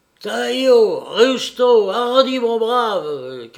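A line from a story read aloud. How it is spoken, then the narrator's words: Shouted again. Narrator (French): cria de nouveau le républicain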